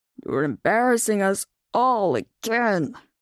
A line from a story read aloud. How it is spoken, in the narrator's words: Shadow growled under his breath